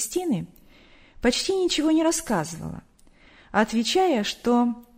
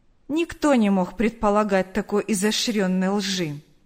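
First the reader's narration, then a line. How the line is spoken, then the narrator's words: Cold. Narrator (Russian): холодно ответила Галина Николаевна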